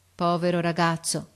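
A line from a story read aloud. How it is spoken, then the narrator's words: Sad officer's repetition. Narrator (Italian): ripeté tristemente l'ufficiale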